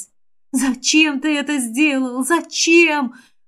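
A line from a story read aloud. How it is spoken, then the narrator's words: Whisper. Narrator (Russian): прошептала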